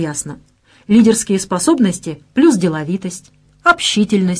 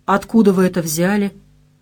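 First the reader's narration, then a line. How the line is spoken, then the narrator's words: Confused, aggressive question. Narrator (Russian): растерянно и потому агрессивно спросил Герман Михайлович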